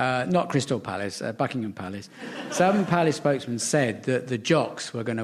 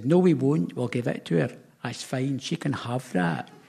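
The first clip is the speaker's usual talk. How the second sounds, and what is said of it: Put-on Scottish accent, imitating Nicola Sturgeon. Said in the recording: “For listeners in Scotland, that was your accent”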